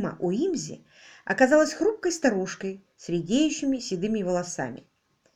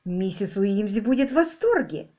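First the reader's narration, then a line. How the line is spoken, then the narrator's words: Exclaiming. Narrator (Russian): воскликнула Ирма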